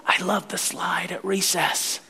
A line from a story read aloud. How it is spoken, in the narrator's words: little Tommy would sit down and he'd whisper